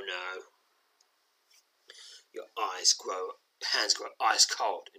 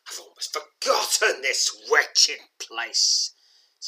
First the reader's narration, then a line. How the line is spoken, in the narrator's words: sneers the young man